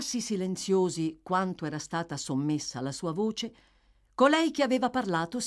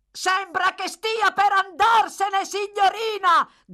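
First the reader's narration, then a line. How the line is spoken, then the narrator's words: Shouted as before. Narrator (Italian): gridò Brittles nella stessa maniera di prima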